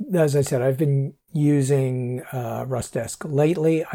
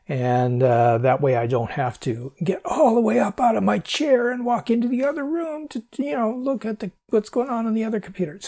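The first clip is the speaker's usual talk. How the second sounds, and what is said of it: Put-on old man voice. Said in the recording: “that's old man voice if you didn't figure that out”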